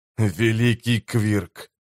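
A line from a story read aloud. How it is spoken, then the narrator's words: Hissed. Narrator (Russian): прошипел Валентайн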